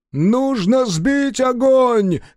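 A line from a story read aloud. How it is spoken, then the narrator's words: Shout. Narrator (Russian): крикнул Годзофин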